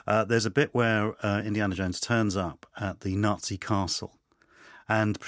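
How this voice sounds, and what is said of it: Usual voice. Nothing is said of it.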